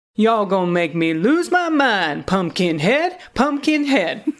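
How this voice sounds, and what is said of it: DMX impression, singing. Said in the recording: “in my best DMX voice.”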